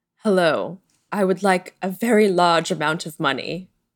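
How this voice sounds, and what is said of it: Sexy British-sounding villain voice. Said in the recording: “sexy voice... I love British accents”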